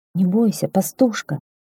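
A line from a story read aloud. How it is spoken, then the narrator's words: Quiet, gentle. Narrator (Russian): тихо заговорил он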